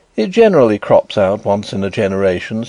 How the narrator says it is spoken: said my brother

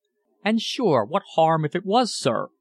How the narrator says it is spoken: exclaimed, voicing the hospitality

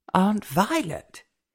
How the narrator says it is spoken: exclaimed Elva in surprise

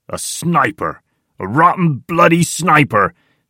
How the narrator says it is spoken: shouts Tiny

